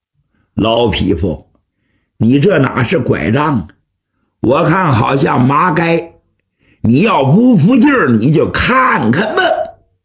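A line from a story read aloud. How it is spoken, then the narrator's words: Hearty laugh. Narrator (Chinese): 王元 哈哈一笑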